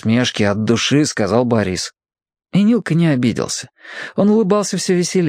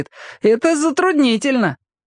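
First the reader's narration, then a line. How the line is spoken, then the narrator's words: Laughing speech. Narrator (Russian): засмеялся и говорит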